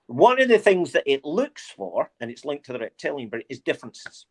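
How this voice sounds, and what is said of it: Mixed Scottish and English accent. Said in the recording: “they can hear the Scottishness in my accent ... oh, you sound very English ... mine's isn't one anymore. Mine's is a whole mix”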